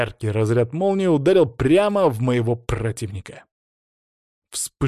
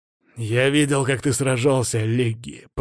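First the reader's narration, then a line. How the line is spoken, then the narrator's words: Man's words through teeth. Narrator (Russian): процедил он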